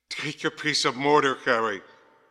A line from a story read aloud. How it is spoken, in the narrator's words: gasped Grant